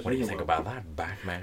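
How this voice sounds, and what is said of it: Joker impression. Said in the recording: “are you doing a Joker impression? ... our Joker impression”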